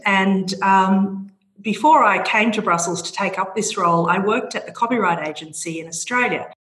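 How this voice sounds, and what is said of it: Australian accent. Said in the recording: “I'm an Australian from my accent.”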